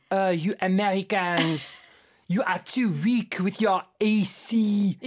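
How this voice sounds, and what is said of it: Deliberately bad French accent. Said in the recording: “That's my very bad French accent.”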